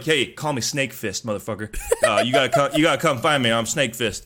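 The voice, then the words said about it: Southern-sounding character voice. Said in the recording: “I don't think he's Southern... He's giving him that voice.”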